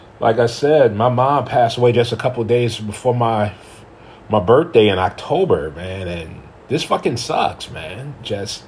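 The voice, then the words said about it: Emotional, choked-up voice. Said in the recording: “I'm getting a little emotional talking about it, as you can probably hear it in my voice”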